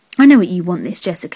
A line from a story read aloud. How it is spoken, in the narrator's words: he growled